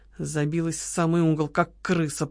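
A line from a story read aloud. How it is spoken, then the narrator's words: Very quiet hiss. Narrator (Russian): прошипела Лола, однако так тихо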